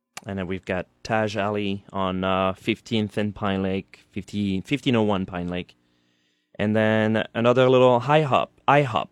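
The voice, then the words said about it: French accent. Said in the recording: “the French accent gets in the way. I put H's when there is none.”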